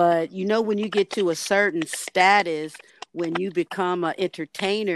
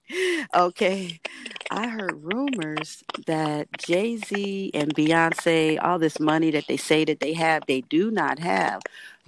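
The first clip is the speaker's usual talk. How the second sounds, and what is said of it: Lowered, quieter voice. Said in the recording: “I'm a, gotta lower my voice here.”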